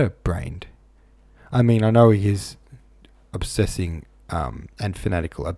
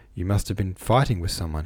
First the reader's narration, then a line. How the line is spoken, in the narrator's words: he muttered